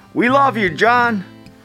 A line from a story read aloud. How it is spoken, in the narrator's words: A voice from the crowd called out